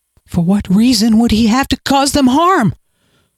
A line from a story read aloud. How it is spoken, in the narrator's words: Miles asked, his voice raising too much